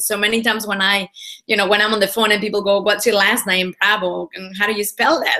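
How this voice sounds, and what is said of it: Mixed Spanish accent in English. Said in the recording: “a Spanish accent ... I have an accent, which is a little bit mixed now, and it's hard to guess, there's certain letters that I have difficulty pronouncing”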